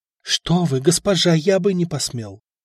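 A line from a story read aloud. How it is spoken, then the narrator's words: Frightened answer. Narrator (Russian): испуганно ответил Стефан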